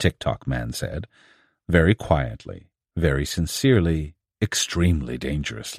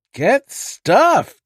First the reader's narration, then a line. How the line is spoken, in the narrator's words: the Harlequin replied, sneering